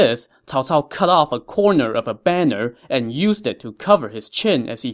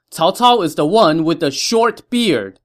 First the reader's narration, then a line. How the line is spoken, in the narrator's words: he told his men to shout